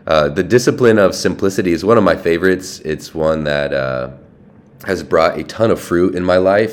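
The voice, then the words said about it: Congested voice from a cold. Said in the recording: “as you can probably tell, I have a little bit of a cold, ... Hopefully you can make out what I'm saying.”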